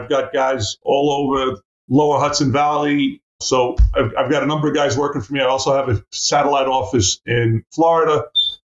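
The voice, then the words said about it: New York accent. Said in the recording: “I'm in New York State, in case you didn't recognize that from the accent.”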